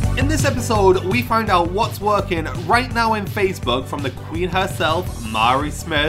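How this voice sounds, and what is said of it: Usual voice. Nothing is said of it.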